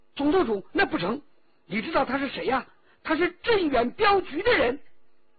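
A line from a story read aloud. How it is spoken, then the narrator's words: Sudden. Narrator (Chinese): 忽然骆宾说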